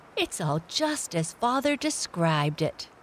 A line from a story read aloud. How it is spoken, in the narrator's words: said Felix with a blissful sigh